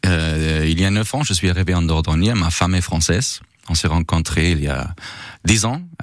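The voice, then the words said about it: Pronounced Austrian accent in French. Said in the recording (French): “on entend un accent quand même assez prononcé ... vous êtes autrichien d'origine”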